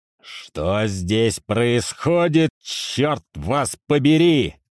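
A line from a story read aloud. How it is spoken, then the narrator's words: Angry roar. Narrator (Russian): взревел Юдин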